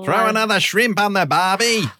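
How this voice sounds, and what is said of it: Bad put-on Australian accent. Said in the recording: “terrible Australian accents”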